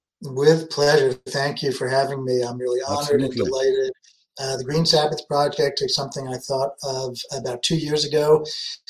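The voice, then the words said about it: New York accent. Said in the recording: “I myself am a thoroughgoing New Yorker... I could hear the accent.”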